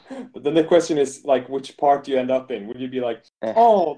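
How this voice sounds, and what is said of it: Usual voice. Nothing is said of it.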